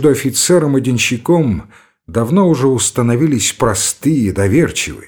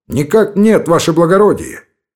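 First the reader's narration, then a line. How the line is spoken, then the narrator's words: Shouting. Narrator (Russian): крикнул Гайнан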